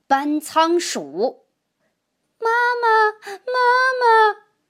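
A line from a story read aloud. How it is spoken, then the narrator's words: Crying out for mother. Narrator (Chinese): 小渠精们不停地哭喊着要妈妈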